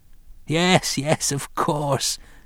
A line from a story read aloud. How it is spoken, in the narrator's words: cackled